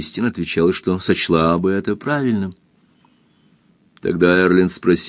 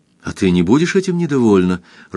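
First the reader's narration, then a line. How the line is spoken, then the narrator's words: Happy question. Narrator (Russian): радостно спросил Эрленд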